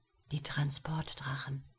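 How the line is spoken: Whispered. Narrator (German): flüstert Eleanor mir zu

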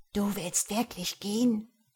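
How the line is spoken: Awed whisper. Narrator (German): flüsterte ehrfürchtig

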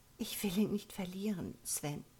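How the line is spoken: Very quiet. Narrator (German): sagte sie sehr leise

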